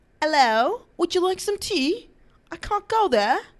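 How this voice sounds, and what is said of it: Exaggerated put-on British accent. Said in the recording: “In the British accent... you have a terrible British accent... I think I have a great British accent”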